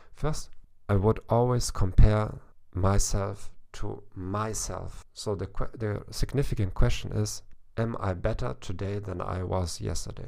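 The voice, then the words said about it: German-accented English. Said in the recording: “people may criticize my accent during this podcast ... You sound very German”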